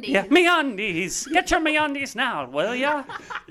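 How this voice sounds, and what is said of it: Put-on Irish accent. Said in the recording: “my Irish accent”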